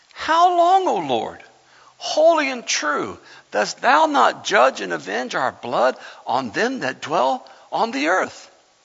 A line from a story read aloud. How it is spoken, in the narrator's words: they cried with a loud voice saying